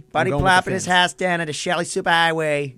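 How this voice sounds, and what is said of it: Put-on Boston accent, unconvincing. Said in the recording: “You can't do the accent. ... that's the Boston accent”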